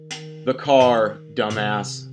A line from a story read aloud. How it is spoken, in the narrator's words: Springfield shouted